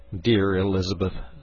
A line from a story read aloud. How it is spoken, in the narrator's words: said I